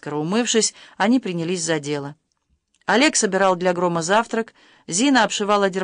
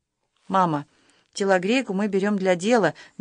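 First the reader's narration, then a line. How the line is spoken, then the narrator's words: Soft reply. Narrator (Russian): мягко ответила Зина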